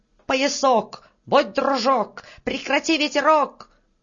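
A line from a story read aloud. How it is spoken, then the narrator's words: Old man's shout. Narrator (Russian): Седой мужичок крикнул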